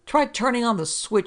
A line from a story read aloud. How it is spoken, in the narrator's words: Sale yelled